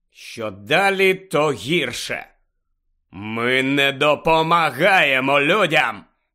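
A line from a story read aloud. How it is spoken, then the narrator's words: Centaur's growl. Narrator (Ukrainian): прогарчав той кентавр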